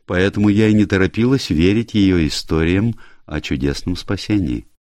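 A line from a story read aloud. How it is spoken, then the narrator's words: Calm. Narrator (Russian): спокойно сказал Фредерико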